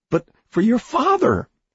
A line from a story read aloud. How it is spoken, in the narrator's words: he said desperately